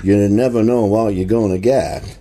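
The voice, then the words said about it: Fairly close Forrest Gump impression. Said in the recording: “I actually don't think that's a bad impression, because the way he says, what you're going to get, that's close ... Forrest Gump impersonation”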